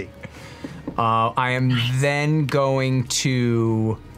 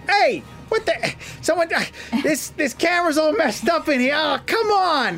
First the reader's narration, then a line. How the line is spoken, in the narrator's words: you can hear him exclaim